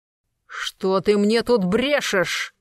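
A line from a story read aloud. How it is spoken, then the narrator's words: Growl. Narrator (Russian): зарычал Смоловой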